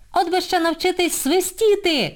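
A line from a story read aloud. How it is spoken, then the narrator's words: Shouted from afar. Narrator (Ukrainian): крикнула здалеку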